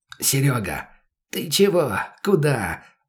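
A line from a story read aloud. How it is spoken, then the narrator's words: Hissed. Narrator (Russian): зашипел он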